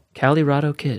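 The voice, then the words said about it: Sultry voice. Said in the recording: “In my sultry voice. I gave you my sultry voice right there.”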